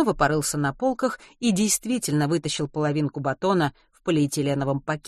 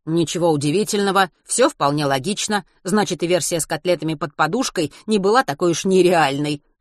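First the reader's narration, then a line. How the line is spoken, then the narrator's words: Smirking grunt. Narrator (Russian): хмыкнул Матвей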